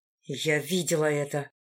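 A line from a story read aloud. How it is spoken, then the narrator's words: Hiss. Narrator (Russian): прошипела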